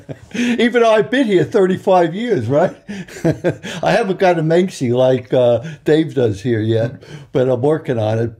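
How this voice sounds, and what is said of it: Long Island New York accent. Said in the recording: “I'm from Long Island, New York. You probably could still tell by the accent.”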